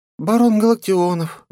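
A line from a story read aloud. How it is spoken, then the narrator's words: Sad. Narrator (Russian): грустно сказала она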